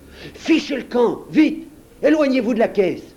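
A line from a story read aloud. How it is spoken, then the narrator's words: Exclaiming. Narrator (French): s'exclama Marco Valdo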